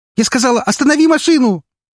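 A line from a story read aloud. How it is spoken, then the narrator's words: Angry shout, near sobbing. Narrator (Russian): Зло, почти срываясь в рыдание, закричала она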